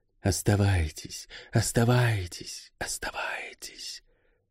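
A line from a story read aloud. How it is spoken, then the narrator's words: Whisper inside her head. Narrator (Russian): В голове она услышала шепот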